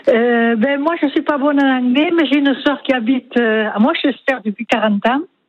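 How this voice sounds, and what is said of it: Sing-song regional French accent. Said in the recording (French): “accent chantant ... l'accent du Gers”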